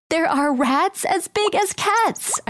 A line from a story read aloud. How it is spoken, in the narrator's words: I screamed